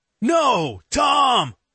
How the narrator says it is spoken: Elliot shouts

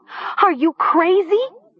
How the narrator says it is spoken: Nessa shrieked

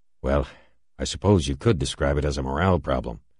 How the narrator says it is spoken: Halverson sighed

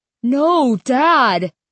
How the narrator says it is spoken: Styx cried

